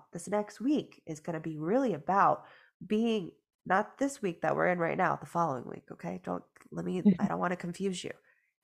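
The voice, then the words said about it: Nasal, congested voice. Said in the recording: “I sound nasally, because I am still going through it ... that they were sick”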